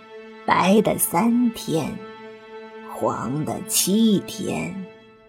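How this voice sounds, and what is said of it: Quiet voice, laughing softly. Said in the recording (Chinese): “小声笑道”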